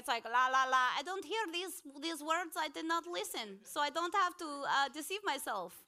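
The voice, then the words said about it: Sudden put-on accent. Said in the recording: “I don't know why that accent came out.”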